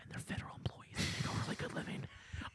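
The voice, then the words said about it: Whispering. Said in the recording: “why I'm whispering”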